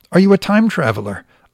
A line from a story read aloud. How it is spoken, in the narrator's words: asked eagerly